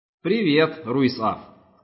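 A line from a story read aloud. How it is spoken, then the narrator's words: Plain. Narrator (Russian): сказал оранжевый человечек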